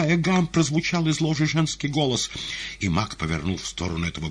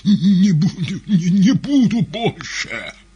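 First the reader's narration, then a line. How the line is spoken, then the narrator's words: Hoarse rasping head. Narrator (Russian): прохрипела голова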